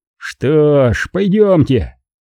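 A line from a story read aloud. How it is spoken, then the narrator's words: Man grumbling. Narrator (Russian): пробурчал мужчина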